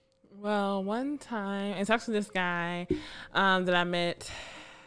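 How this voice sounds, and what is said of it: Sultry, seductive voice. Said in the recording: “she put a sexy voice on”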